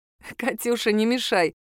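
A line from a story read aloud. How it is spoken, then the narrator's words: Laughing. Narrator (Russian): рассмеялась я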